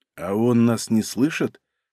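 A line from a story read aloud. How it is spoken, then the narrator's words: Whispered question. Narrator (Russian): шепотом спросил Лашников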